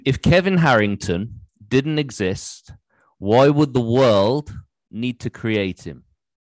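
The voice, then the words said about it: English accent. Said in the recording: “It's probably my English accent.”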